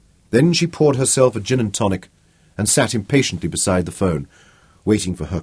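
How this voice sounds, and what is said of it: Usual voice. Nothing is said of it.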